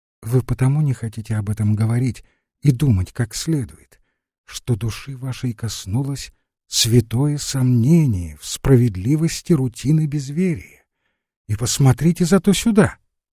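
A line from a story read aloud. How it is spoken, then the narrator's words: Said gently. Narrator (Russian): Евангел ласково проговорил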